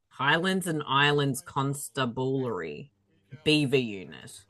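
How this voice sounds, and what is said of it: Put-on accent. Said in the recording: “whatever accent I put on”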